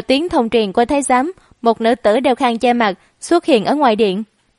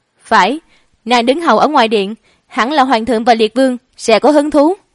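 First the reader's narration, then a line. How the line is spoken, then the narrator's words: Confident, excited, raised voice. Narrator (Vietnamese): Mộ Dung Triết tự tin ..., cười tuấn lãng bất phàm, liều mạng kiềm chế trái tim sắp nhảy ra ngoài vì hưng phấn, cao giọng trả lời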